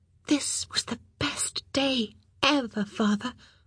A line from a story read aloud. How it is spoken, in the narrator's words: she whispered